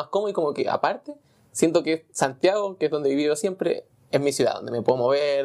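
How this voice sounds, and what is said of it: Chilean-accented Spanish. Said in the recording (Spanish): “tú hablas como chileno ... dicen que hablo como chileno”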